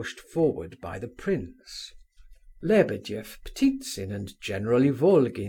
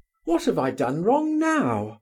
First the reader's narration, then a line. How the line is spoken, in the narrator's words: cried Colia